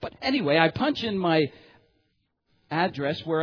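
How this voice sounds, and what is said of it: Usual voice. Nothing is said of it.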